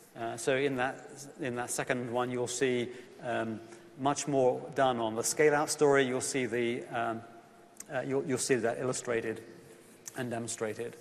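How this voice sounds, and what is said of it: English accent. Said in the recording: “you can tell from my accent, I'm from England originally”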